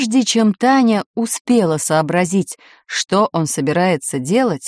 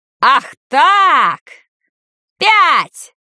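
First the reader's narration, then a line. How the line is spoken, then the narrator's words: Yelled by an uncle. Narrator (Russian): заорал дядя Герман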